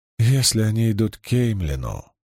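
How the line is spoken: Crushed tone. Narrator (Russian): убитым тоном сказала она

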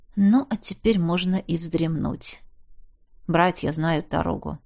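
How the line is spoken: Quiet. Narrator (Russian): тихонько сказал

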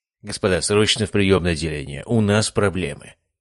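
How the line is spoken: Strained calm. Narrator (Russian): Он старался говорить спокойно

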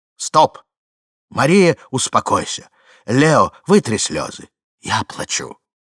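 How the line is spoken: Firm, stern voice overhead. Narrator (Russian): Вдруг над головами убедительно и строго прозвучало

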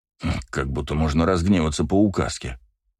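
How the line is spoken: Muttered. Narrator (Russian): пробормотал Браво

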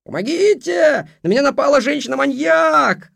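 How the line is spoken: Gleeful yell. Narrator (Russian): радостно завопил Роман

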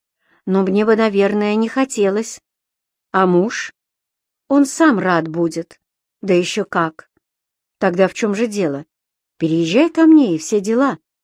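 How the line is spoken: Calm, businesslike. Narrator (Russian): спокойно сказал он, будто обставлял свое очередное дело по ремонту квартир, а не по устройству собственной жизни

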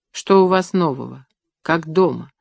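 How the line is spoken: Gentle question. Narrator (Russian): ласково спросила Бориса Лариса Михайловна

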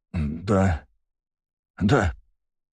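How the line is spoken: Muttered. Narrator (Russian): пробормотал мужчина

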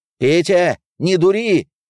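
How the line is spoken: Shout. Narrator (Russian): снова крикнул Соглобов

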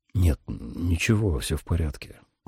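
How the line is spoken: Muttered. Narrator (Russian): пробормотал

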